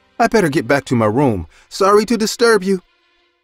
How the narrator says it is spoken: She said in a frightened voice

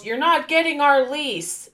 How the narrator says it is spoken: He yells

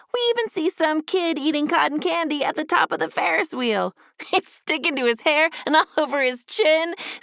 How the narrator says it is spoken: said Ducky, laughing and getting distracted

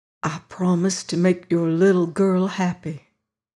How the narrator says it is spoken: whispered

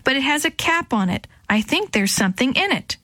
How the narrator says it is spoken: she shouted back

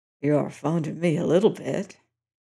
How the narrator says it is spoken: the graceless Tom whispered

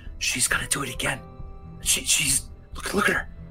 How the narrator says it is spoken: several Goliaths kind of chattering and kind of whispering, but loud enough for you to hear

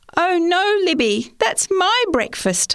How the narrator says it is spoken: I cried

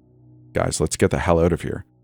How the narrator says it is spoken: whispered

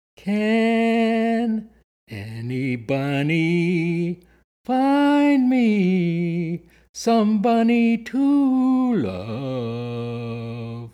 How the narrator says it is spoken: sing in a very loud voice

